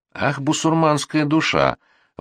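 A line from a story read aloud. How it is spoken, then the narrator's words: Maid's exclamation, quiet despair. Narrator (Russian): воскликнула горничная с тихим отчаянием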